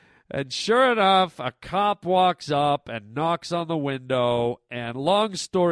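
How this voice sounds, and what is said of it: Usual voice. Nothing is said of it.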